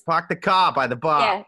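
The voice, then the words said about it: Put-on Boston Southie accent. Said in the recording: “trying to do a Massachusetts accent ... is that a Boston accent? ... Southie ... I'm just doing Southie”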